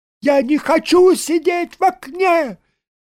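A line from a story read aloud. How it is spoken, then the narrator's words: Shouting. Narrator (Russian): кричал Саранин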